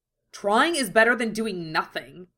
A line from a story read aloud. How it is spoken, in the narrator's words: snapped, fixing with a suspicious, furious glare